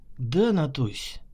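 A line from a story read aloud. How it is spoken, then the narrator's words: Gentle, loving reply. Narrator (Russian): мягко ответил любящий свою непутевую сестру майор госбезопасности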